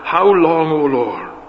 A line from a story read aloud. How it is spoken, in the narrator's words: They cried out from under the altar